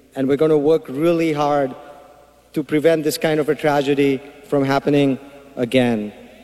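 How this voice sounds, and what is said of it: Thick foreign accent. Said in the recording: “in case his accent was too thick for you”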